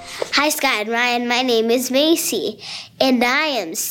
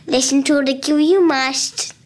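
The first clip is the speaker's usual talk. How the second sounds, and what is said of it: Child doing a Yoda voice. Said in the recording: “do my listener voice impersonation ... that was Yoda ... I thought we had Frank Oz on the phone there”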